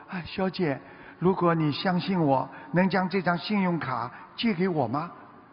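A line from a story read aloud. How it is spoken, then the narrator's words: Embarrassed, quiet. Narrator (Chinese): 有点难为情，小声地说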